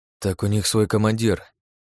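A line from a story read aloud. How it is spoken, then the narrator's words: Gruff mutter. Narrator (Russian): буркнул я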